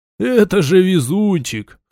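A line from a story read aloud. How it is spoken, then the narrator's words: Short laugh. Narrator (Russian): хохотнул Дон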